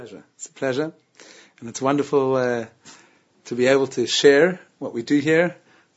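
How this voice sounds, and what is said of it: South African accent. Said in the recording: “He has that South African accent. ... Doesn't sound like a real Aussie”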